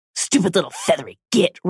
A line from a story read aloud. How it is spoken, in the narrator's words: Ron hissed, hurrying up the stairs